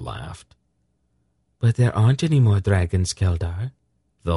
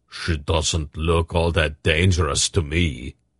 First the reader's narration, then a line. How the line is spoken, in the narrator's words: Barak grunted